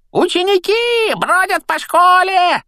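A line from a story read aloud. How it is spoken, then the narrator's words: Deafening yell. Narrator (Russian): оглушительно заорал Пивз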